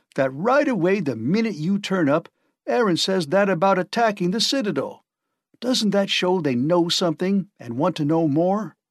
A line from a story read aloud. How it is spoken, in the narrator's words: cried the chief of the Arkansas